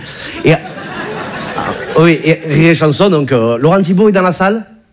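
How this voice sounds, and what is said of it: Southern French accent. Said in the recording (French): “Talent, c'est un petit village qui est dans les Bouches-du-Rhône ... Tu as vu mon accent, hein, je viens pas de Bagnolet.”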